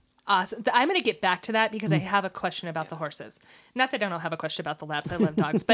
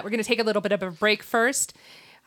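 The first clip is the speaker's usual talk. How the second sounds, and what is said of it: Speaks very fast. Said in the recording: “I said that really fast.”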